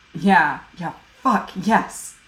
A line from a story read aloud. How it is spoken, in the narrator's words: Jim hisses